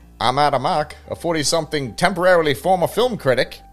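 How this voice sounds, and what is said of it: Put-on transatlantic 1940s accent. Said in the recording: “I was entranced by your voice ... I wish I could do as good a transatlantic accent”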